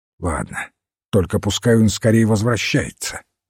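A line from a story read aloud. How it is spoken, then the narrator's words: Sharp. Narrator (Russian): резко сказал Энгус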